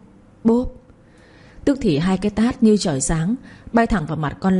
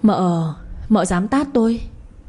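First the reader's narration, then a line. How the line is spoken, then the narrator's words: Stammering. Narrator (Vietnamese): Miệng nó lắp bắp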